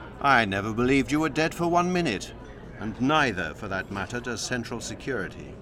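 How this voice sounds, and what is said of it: Usual voice. Nothing is said of it.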